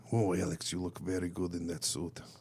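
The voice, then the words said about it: Put-on Eastern European accent. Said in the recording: “I can do like an Eastern European accent.”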